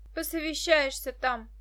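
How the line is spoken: Snorting. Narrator (Russian): фыркнула Дашка

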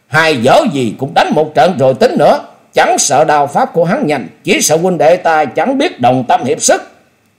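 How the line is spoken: Loud shout. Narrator (Vietnamese): Từ Ngũ Phúc cũng hét lớn

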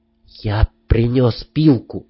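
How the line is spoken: Quiet. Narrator (Russian): тихо сказал Грек

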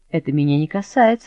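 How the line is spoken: Laughing objection. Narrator (Russian): возразил, смеясь, Прокситель

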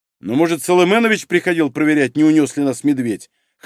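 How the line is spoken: Chuckling. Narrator (Russian): хохотнул Юргинай

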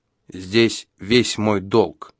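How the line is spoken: Solemn old man. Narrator (Russian): так же торжественно сказал старик

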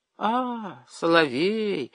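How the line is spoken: Disappointed female drawl. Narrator (Russian): разочарованно протянула она

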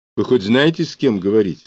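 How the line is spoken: Plain. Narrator (Russian): спросил Брюханов

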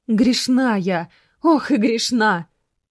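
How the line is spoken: Sudden loud exclamation. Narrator (Russian): неожиданно для Мирославы громко воскликнула

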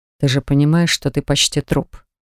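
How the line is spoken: Quiet, chilling menace. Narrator (Russian): спросил Дан тихо, но от его голоса, казалось, даже тьма вокруг испуганно застыла

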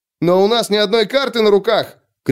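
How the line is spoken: Shout. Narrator (Russian): крикнул кто-то

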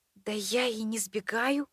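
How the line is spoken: Bewildered whisper. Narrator (Russian): шепотом произнесла я в полном недоумении

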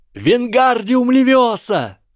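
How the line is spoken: Yelling. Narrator (Russian): заорал Гарри

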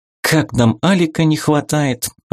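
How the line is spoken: Sighing. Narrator (Russian): вздохнула Магиня

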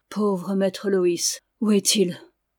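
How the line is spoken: Sighing. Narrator (French): se reprenait-il en soupirant

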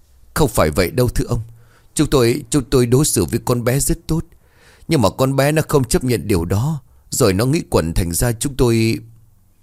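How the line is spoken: Trembling. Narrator (Vietnamese): Bá hộ Lưu run rẩy

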